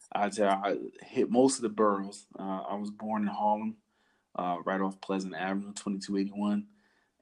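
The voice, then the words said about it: New York accent. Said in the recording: “my man's accent is definitely shining through. We got a New Yorker in the house.”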